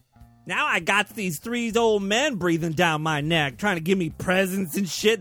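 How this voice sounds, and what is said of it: Crude sassy young woman character voice. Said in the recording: “My impression of a slutty Virgin Mary”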